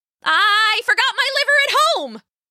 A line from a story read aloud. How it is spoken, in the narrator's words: she yelled